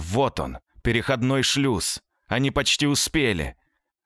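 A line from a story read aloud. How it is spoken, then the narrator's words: Shouting from behind. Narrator (Russian): Сзади снова закричали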